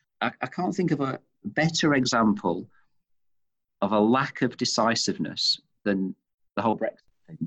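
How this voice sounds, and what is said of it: Manchester English accent. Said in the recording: “you can tell from my accent, of course, and I've mentioned I'm from Manchester”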